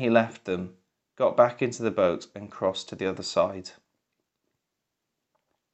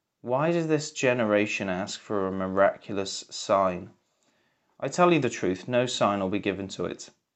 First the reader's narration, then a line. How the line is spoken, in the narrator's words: He sighed deeply and said